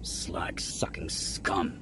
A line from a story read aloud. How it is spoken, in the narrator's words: Bordon spat